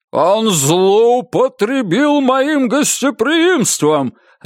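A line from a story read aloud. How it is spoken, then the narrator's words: Barked. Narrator (Russian): рявкнул граф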